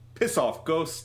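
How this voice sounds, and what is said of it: Put-on New Zealand accent. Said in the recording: “This is a great New Zealand accent”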